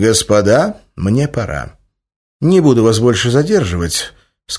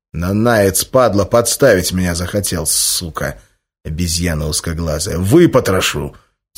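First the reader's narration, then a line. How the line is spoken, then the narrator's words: Quiet furious growl. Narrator (Russian): тихо рычал взбешенный рецидивист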